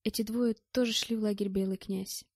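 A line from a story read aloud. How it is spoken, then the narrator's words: Calm. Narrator (Russian): спокойно ответила Мэтт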